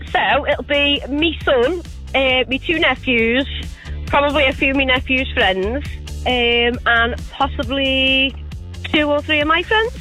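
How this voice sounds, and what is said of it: Scouse accent. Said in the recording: “I detect a Scouse accent.”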